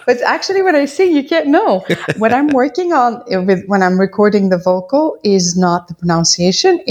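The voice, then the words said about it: Speaks with a noticeable accent. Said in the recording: “you obviously have an accent when I talk to you here on the show”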